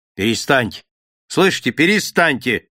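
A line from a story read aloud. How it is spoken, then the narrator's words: Stern. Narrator (Russian): строго сказал Смит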